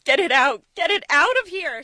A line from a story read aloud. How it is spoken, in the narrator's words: She starts sobbing